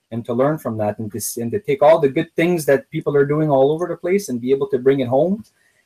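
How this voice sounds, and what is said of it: Speaks with an accent. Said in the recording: “if you didn't notice the accent, he pronounced his name so beautifully ... I love the accent”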